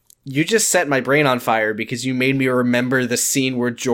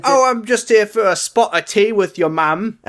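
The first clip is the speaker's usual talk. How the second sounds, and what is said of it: Put-on Cockney accent. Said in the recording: “was talking in a Cockney accent”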